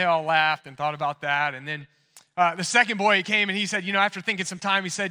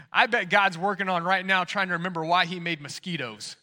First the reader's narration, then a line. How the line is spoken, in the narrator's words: one of the boys chuckled and chimed in